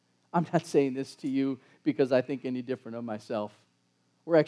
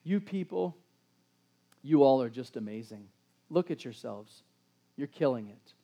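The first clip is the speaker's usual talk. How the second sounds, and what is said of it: Sarcastic tone. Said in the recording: “You can hear the sarcasm in my voice”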